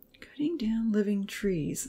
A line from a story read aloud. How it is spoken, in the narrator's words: Uncle Louis whispered with a frown